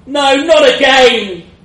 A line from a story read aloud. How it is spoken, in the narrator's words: I yelled